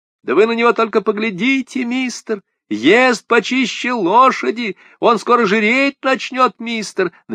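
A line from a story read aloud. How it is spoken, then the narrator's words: Overlapping shouting voices. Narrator (Russian): наперебой кричали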